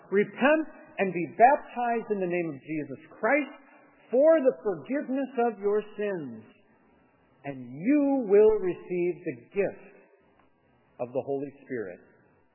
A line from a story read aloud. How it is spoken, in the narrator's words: the Apostle Peter shouts